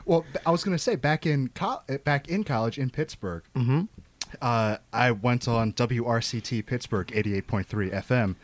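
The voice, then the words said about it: Polished NPR-style radio voice. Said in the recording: “You got a nice radio voice. ... you have an NPR voice. ... It is an NPR voice. ... That's like a $4 word voice ... You have a great voice.”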